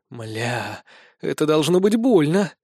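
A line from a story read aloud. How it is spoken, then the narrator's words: Groaning, just awakened. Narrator (Russian): стонать очнувшаяся Лиен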